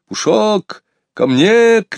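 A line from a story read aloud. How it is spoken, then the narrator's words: Shouting. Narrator (Russian): кричал Сергей Иванович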